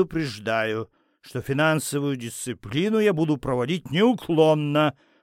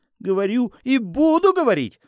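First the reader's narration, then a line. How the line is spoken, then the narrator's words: Woman shouting. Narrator (Russian): закричала жена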